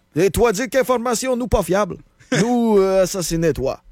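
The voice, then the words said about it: Put-on Russian accent, Québécois tinge. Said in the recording (French): “un petit accent québécois au travers de mon accent russe... l'accent du bas du fleuve”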